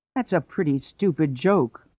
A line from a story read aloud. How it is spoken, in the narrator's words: the rooster said